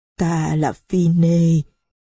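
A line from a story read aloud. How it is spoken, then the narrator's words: Trembling voice. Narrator (Vietnamese): ông nói giọng run run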